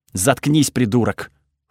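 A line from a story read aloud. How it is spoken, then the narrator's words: Snorted. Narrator (Russian): фыркнул Тхаги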